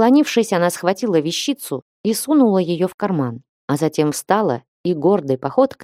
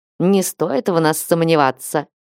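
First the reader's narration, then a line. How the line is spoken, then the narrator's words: Hmph. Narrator (Russian): Лиза хмыкнула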